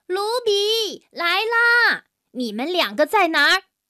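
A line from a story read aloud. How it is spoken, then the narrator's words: Loud question, mother pig. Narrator (Chinese): 猪妈妈大声地问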